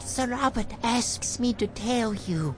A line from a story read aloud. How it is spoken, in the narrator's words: whispered the boy